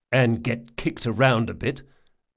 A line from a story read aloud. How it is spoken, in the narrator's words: muttered Locke